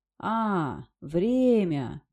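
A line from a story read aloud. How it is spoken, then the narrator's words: Drawling raven. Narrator (Russian): протянул ворон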